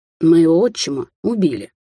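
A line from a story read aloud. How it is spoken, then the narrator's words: Curt, abrupt change of tone. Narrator (Russian): отрезал Даниэль, резко меняя тему и тон разговора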